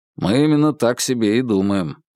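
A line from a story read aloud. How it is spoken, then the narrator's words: Grunted. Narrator (Russian): буркнул Вербин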